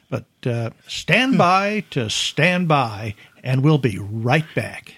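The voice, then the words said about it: Radio DJ voice. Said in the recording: “in his best DJ voice”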